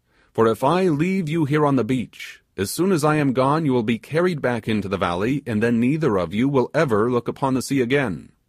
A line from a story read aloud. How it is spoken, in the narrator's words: exclaimed the sailor